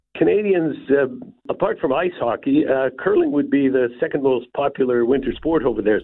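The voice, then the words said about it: Canadian accent. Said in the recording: “as you might have detected from this accent, although I have lived in New Zealand for 34 years, I was born and raised in Canada.”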